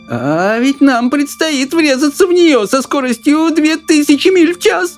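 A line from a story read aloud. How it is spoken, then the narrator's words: Old woman moaning. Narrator (Russian): простонала бабушка Джорджина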